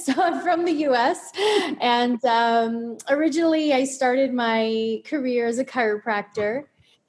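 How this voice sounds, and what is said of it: American accent. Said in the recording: “you might notice that I have a different accent.”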